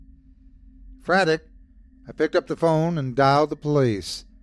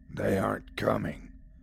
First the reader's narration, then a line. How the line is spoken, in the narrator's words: growled the voice